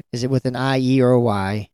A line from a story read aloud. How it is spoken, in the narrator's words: Steve asked in a defeated tone